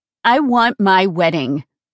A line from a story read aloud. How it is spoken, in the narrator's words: I said firmly